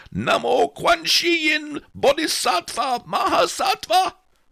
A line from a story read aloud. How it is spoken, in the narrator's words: The abbot was dancing a jing while he bellowed